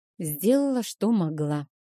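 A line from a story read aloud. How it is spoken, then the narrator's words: Sighing. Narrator (Russian): вздохнула я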